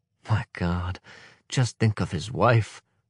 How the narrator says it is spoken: murmured Valentine

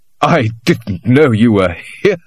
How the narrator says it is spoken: said Dennis, laughing more bitterly and artificially than before

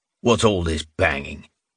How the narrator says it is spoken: The long-faced guard asked in a menacing growl

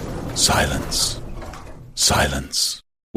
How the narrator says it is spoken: whispered a loudspeaker

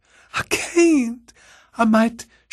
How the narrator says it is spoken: she whimpered

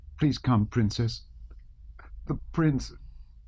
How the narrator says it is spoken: said in a breaking voice

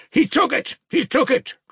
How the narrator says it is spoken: cried Mitya

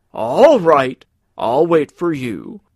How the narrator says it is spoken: he shouted to Carl

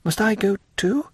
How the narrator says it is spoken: asked Valentine timidly

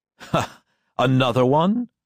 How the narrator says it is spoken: laughed

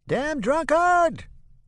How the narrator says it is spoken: a voice screeches

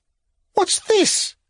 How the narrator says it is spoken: cried his spouse

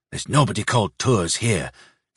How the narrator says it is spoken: said in a low voice

